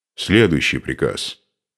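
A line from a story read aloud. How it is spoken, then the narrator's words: Stern. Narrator (Russian): строго произнес Духарев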